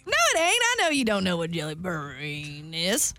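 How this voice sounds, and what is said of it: Put-on evil Southern accent. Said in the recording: “I'll do southern ... Let's mix southern and evil.”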